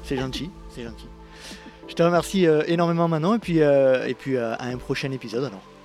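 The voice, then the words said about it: Noticeable regional French accent. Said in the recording (French): “avec ton accent, on a l'impression d'être en vacances”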